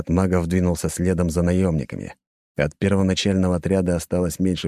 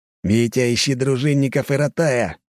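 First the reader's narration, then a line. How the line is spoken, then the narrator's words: Growled command. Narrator (Russian): рыкнул Овчинников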